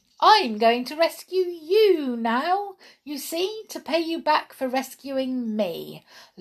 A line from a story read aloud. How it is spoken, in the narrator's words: laughed Peronel